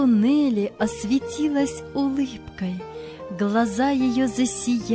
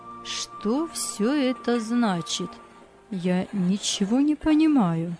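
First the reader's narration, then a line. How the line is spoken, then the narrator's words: Old woman's quiet question. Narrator (Russian): тихо спросила старушка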